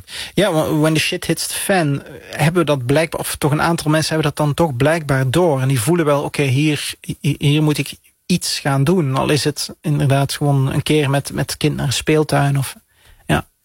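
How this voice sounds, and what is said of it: Flemish accent. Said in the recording (Dutch): “De luisteraars horen een Vlaams accent.”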